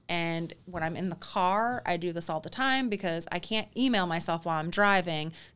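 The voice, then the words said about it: Thick Michigan Midwestern accent. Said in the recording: “my accent ... Thick Michigan accent. ... That thick Michigan, Midwestern accent”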